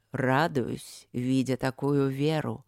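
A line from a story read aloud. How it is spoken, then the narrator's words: Tired, condescending. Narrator (Russian): устало и снисходительно отвечал жрец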